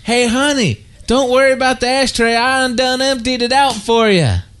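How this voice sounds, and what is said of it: Weak put-on country accent. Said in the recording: “You need to work on your country accent”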